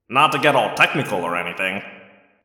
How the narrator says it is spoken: Marco said dryly

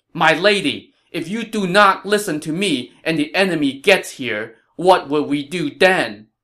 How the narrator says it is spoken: Zhao Yun raised his voice and said sternly

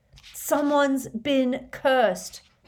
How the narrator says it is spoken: bellowed Harry

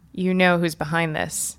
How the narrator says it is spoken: I said quietly

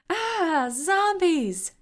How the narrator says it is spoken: everyone screamed

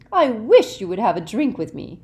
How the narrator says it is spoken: she said, her voice becoming more dangerously sweet

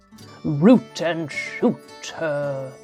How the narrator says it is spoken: growled

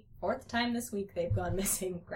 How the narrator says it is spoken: Grandpa said under his breath

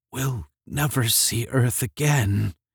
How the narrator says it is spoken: whispered feebly

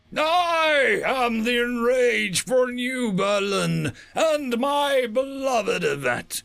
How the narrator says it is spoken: the human roared

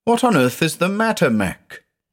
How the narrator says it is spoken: exclaimed

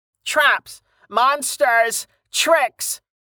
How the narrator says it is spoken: Francois howled with delight

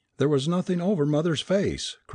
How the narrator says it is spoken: cried the lady at length

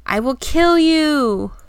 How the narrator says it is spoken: they shouted

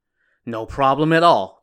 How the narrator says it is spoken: the squire said

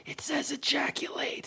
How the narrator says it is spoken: whisper

